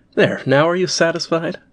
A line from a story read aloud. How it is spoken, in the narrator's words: exclaiming as she turned away